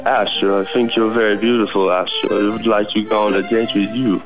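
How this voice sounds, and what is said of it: Put-on French accent. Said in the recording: “take us out with a bit of a French accent ... you have a very good French accent”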